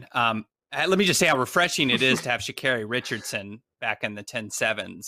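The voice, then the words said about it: American accent. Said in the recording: “I don't know if people could tell by my accent, but I am an American.”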